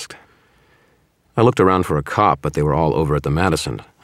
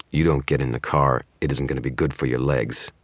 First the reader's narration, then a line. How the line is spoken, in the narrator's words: the man growled